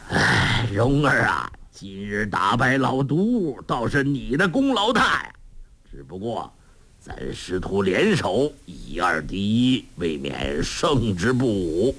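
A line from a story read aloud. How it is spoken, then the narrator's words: Sighing. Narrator (Chinese): 洪七公叹道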